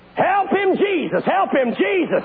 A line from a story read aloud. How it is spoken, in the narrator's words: some lady in the back yelled